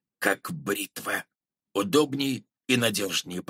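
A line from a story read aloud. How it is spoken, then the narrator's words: Muttered. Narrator (Russian): пробормотал он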